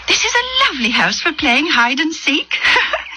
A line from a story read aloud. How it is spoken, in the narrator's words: Judith giggled